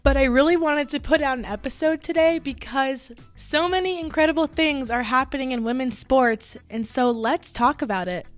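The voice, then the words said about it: Slightly hoarse, raspy voice. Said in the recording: “my voice is a little bit gone, so I'm really sorry if it ever cuts out or gets a little raspy.”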